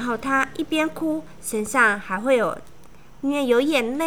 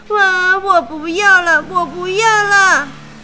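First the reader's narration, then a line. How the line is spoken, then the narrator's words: Crying. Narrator (Chinese): 爱哭公主一直哭，一直哭，哭着说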